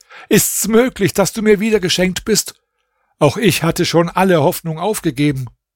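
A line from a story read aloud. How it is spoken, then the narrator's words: Calling out. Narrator (German): rief der König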